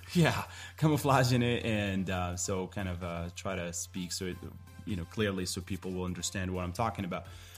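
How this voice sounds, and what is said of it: Slight Moroccan accent. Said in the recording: “I'm from Morocco. You might pick up on some of my accents here and there. It pops up. I'm trying to do a good job camouflaging it.”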